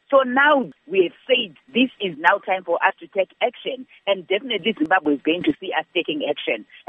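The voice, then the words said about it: Angry, upset voice. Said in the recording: “I'm sure you can actually hear from my voice... we are still angry”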